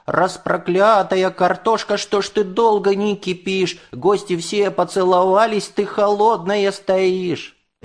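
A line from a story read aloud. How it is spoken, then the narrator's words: Yelling. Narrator (Russian): заорал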